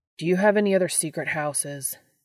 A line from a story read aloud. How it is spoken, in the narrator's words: Dean says loudly